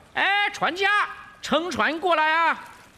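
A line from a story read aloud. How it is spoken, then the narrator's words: Loud call. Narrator (Chinese): 孙悟空高声叫道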